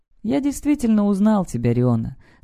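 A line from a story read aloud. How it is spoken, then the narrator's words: Calm. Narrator (Russian): спокойно говорю я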